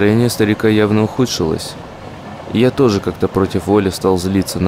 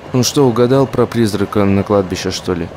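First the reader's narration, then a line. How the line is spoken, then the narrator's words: Impatient student's question. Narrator (Russian): студентик не выдержал и спросил его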